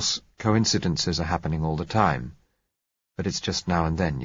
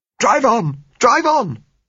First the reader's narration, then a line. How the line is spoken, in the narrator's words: said Gisella hysterically